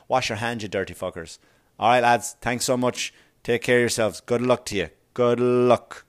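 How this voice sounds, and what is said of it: Odd put-on accent. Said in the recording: “Oh my God, I don't know what kind of accent is that.”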